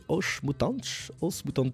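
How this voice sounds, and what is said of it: Poor Portuguese pronunciation. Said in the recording (French): “j'ai un accent à chier, je parle pas portugais”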